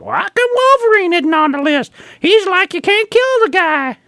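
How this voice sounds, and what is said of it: Imitates another person's voice. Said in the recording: “Why are you talking like Herbert from Family? ... I'm just imitating one of the people that I ran into at a comic book store”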